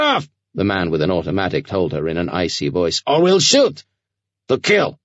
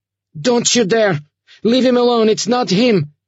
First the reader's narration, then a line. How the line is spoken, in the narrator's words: Sasha shouted